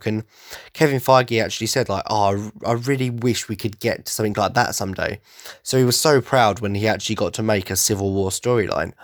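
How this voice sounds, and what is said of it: Congested, slightly nasal voice. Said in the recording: “I'm a bit blocked up from hay fever and everything ... I'm stuttering a bit and probably sound a little bit nasal”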